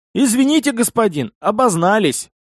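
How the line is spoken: Strained, forced out. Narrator (Russian): выдавил

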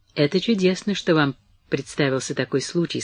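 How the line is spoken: Quiet. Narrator (Russian): сказала она тихо

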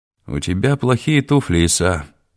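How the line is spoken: Sad. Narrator (Russian): печально сказал Муса Мусаевич

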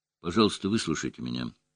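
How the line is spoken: Calm. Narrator (Russian): спокойно сказал

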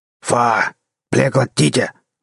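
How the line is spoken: Growling. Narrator (Russian): зарычал один

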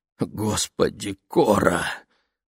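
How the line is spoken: Hoarse wheeze. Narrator (Russian): прохрипел

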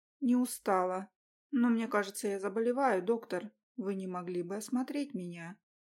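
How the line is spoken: Feigned sad sigh. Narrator (Russian): Наигранно печально вздохнула я

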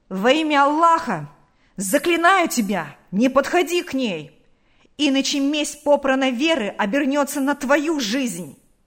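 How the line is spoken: Angry shout. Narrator (Russian): крикнул озлобленно Наташе

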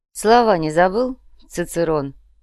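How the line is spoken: Mocking question. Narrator (Russian): насмешливо поинтересовался оператор

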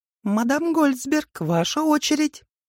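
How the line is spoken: Mocking squeaky voice. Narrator (Russian): пропищал возле нее насмешливый голос

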